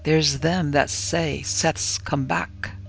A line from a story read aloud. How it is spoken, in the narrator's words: he leaned forward with a dark, beetling face and whispered harshly